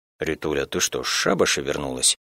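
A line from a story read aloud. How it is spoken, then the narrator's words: Mumbled. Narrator (Russian): Только и промямлил мой законный бывший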